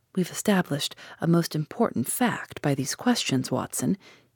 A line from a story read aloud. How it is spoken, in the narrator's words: he continued in a low voice